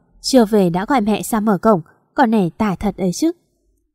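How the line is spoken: Muttering. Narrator (Vietnamese): Bác lẩm bẩm

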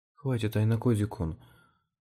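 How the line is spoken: Tense pleading. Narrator (Russian): напряженным голосом попросила она

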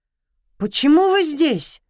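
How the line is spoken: Shout. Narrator (Russian): выкрикнул Артём

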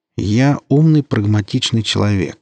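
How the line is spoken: Calm reply. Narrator (Russian): спокойно ответил механик

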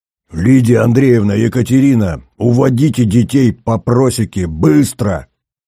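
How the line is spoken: Roared. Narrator (Russian): взревел Шубин

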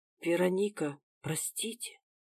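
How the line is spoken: Soft fearful sympathetic whisper. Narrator (Russian): Тихо прошептала няня со страхом и сочувствием

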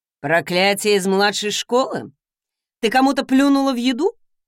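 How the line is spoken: Wry snort. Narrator (Russian): хмыкнул он

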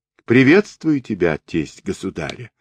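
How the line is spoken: Plain, a ruler. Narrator (Russian): сказал правитель

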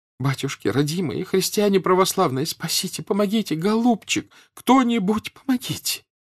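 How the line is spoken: Sobbing. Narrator (Russian): выговаривала она сквозь рыдания

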